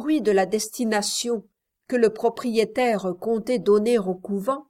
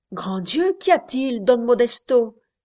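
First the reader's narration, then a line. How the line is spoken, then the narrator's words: Exclamation. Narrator (French): s'écria-t-elle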